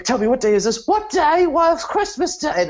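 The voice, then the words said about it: Put-on English washerwoman accent. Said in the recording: “the washerwoman, which is my go-to English accent”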